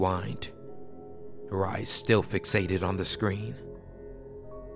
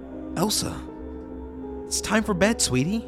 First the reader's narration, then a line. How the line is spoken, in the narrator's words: I called out again, shakingly